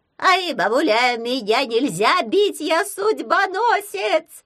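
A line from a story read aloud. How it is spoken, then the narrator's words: Squeak. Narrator (Russian): запищал Халявий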